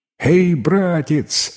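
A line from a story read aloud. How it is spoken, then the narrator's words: Cheerful shout from window. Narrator (Russian): весело крикнул из окна юноша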